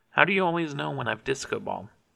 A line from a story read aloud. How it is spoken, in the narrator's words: She sighed